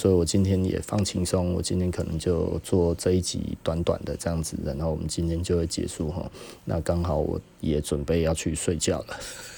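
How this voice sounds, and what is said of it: Voice getting quieter and quieter. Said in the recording (Chinese): “越讲越小声哦”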